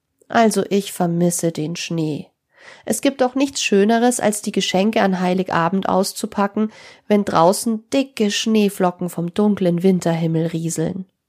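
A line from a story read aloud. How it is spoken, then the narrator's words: Said sadly. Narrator (German): meinte traurig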